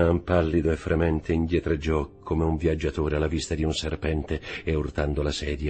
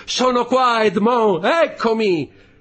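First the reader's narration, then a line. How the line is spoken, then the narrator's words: Shouting. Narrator (Italian): gridando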